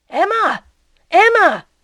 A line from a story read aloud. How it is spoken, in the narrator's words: cried Charles